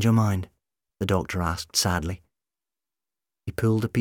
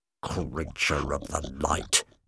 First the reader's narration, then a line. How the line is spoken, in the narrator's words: Kevin muttered